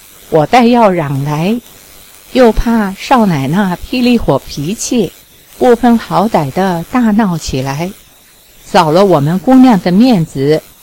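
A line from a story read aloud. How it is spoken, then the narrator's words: Long sigh. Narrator (Chinese): 尼儿长长的叹了口气道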